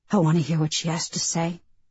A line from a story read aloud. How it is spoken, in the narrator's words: Nia mumbled